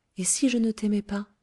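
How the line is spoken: Said timidly. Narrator (French): dit timidement Tahoser

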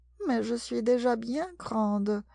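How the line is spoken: Said sadly. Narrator (French): dit-elle tristement

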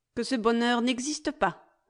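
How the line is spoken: Curt reply. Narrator (French): répondit sèchement Germaine

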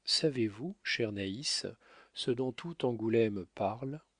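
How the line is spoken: Plain. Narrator (French): lui dit-elle

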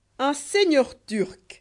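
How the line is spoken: Exclaimed. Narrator (French): s'écria Kéraban

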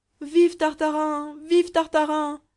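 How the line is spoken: Crowd yelling. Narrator (French): hurla le peuple

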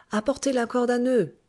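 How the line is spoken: Shouted. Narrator (French): cria Argyropoulos à ses arabes

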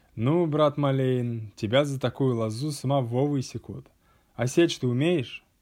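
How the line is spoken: Laughing group speech. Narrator (Russian): засмеялись и сказали

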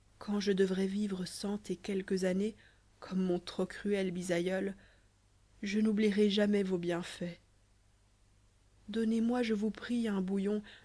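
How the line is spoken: Young girl's shaken whisper. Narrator (French): murmura la jeune fille d'une voix altérée

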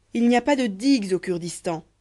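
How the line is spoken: Hurt noblewoman exclaiming. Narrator (French): s'écria la noble Saraboul blessée de tant de froideur

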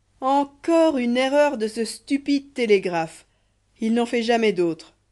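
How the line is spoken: Many voices, one exclaiming. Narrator (French): Ces mots s'échappaient de toutes les bouches, pendant que Kéraban s'écriait

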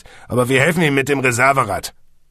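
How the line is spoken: Policeman snapping. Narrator (German): schnauzte der Polizist

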